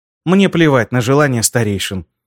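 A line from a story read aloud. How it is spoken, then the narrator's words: Unexpectedly calm. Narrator (Russian): неожиданно спокойно произнесла она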